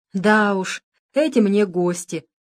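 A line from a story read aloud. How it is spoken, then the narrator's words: Laughing. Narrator (Russian): смеялась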